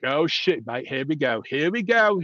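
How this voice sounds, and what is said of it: Attempted British accent sounding Australian. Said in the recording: “That was really Australian. My British accent, sometimes it sounds like a Jamaican leprechaun, and then it goes to Australian.”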